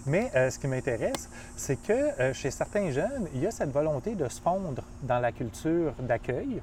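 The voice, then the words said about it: Québécois French accent. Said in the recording (French): “j'arrive pas à me débarrasser de mon accent québécois en France... Je le garde, mon accent québécois”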